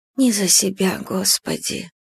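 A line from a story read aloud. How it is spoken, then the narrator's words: Muttering. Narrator (Russian): бормочет Марфа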